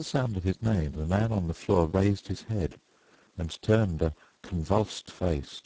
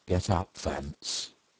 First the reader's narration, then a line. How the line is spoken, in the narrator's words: said Mr